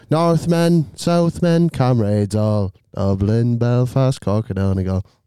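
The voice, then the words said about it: Sings in a put-on accent. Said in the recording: “Don't know why I did the accent. I've just offended my own people.”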